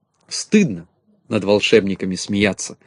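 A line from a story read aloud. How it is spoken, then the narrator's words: Stern. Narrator (Russian): строго сказала Кнопочка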